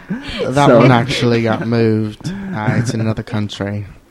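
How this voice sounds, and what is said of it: Put-on Australian accent. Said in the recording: “you sound Australian ... You sound like the crocodile hunter than Richard Gere”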